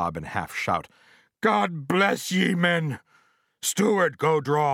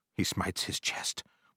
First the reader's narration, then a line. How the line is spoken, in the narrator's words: whispered Stubb